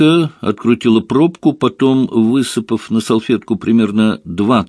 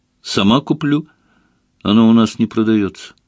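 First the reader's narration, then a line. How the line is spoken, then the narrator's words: Sigh. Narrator (Russian): вздохнула Ленка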